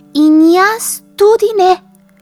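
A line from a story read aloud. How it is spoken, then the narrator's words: Squeaking mouse. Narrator (Slovenian): je zacvilila miška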